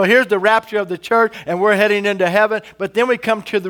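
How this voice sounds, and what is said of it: Usual voice. Nothing is said of it.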